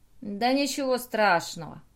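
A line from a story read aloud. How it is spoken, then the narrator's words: Grumble. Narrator (Russian): проворчал Артур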